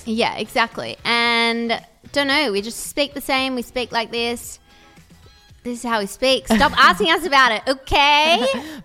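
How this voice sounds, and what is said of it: Melbourne accent with slight American twang. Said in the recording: “we have a bit of an American twang ... it's just a Melbourne accent”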